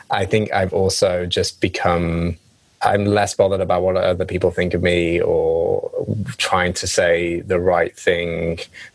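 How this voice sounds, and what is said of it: English accent. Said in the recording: “my English accent ... That's another difference in the US and the UK”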